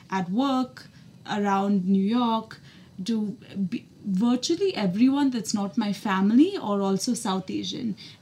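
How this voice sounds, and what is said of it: American accent. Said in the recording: “I speak in an American accent 98% of the time ... it takes a degree of comfort for me to speak in this accent ... me putting on an American accent”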